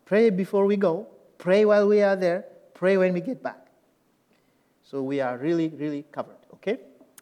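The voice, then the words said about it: Non-native English accent. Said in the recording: “you can understand my accent because my English is a little weird, okay? I pronounce a little weird”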